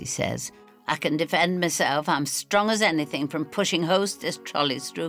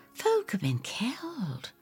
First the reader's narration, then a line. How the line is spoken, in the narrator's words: I whisper